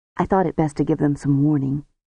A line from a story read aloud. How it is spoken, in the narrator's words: he said in his usual quiet voice